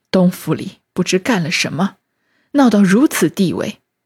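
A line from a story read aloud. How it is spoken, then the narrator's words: Sighing. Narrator (Chinese): 贾政叹气 只说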